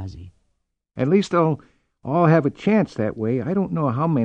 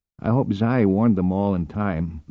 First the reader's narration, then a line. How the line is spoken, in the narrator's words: muttered Esterhazy